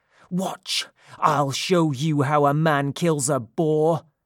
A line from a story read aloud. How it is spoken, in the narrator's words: these words greatly angered Ancaeus, shouting fiercely